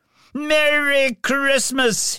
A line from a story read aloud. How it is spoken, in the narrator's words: he shouted to his astounded neighbours